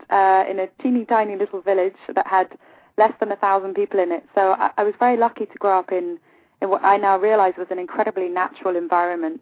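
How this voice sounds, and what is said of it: English accent. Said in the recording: “I was born in England, hence the accent,”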